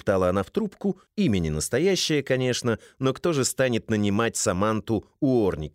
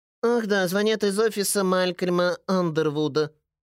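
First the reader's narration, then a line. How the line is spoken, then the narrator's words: Nasal voice over phone. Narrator (Russian): спохватившись, прогнусавила женщина на том конце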